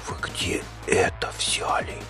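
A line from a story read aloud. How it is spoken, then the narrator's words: Whisper. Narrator (Russian): прошептал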